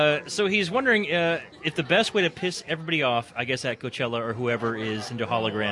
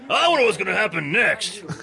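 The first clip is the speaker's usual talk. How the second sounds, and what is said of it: Imitates another person's voice. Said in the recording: “My best Hunter impression.”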